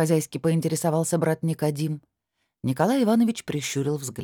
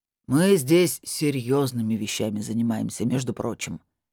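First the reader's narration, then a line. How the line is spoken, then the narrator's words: Displeased deep bass. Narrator (Russian): недовольно пробасил маг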